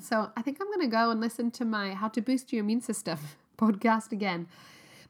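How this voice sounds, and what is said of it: Congested voice with a cold. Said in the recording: “as you can tell, I've got a cold”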